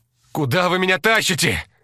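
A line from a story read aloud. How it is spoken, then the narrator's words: Yelling. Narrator (Russian): заорал он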